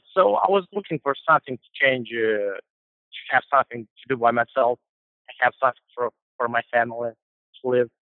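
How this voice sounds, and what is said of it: Moldovan accent. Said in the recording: “It's a lovely accent. ... It's from Moldova. It's kind of we speak Romanian over there, so it's closer to Romanian language.”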